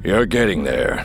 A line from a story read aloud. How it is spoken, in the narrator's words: he said, his voice deep, rumbling